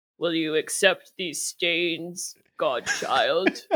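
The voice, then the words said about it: Attempted deep Icelandic-accented character voice. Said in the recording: “it's an Icelandic accent ... He's trying to do some sort of Icelandic accent ... do your best Ragnar ... I can't talk low enough ... That's pretty good ... I'm a soprano. I can't.”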